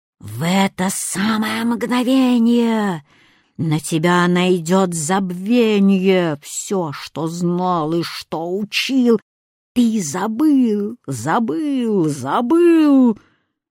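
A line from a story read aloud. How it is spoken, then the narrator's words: Hissing old woman. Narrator (Russian): Старуха стала шипеть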